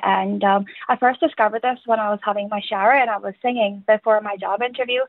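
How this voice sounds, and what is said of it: Irish-sounding accent. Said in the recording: “now you have an Irish accent”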